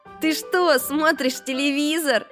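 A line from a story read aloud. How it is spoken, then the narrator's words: Surprised question. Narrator (Russian): удивленно спросил Макси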